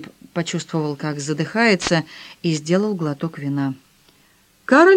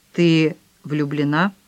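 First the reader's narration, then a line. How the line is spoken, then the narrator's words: Forced calm, indifferent tone. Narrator (Russian): Филипп пытался говорить спокойно, равнодушным тоном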